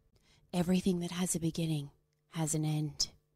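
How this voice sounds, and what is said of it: Serious dramatic voice. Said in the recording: “That's my serious voice.”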